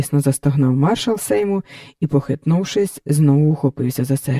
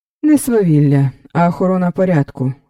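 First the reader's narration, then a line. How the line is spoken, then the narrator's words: Cold reply. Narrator (Ukrainian): холодно відповів Раубенфельд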